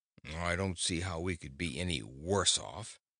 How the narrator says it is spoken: growled Gugu, who was indignant

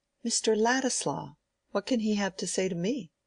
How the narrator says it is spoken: she exclaimed, in a tone of pleased surprise

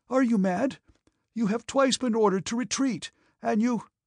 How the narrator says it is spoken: He was shouting in a gasping voice

